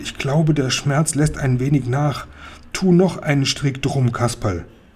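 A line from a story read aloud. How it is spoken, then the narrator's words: Groaning. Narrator (German): stöhnte Seppel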